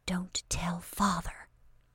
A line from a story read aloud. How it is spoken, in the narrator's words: mocking courtesy full of charm, whispered